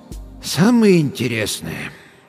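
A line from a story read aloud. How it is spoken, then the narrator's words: Sighing. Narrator (Russian): доктор вздохнул еще раз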